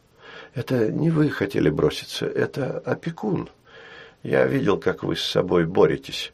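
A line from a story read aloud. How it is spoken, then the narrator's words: Quiet. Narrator (Russian): сказал Арно тихо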